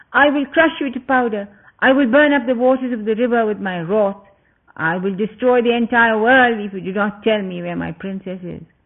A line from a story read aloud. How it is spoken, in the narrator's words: With eyes wild with anger, he shouted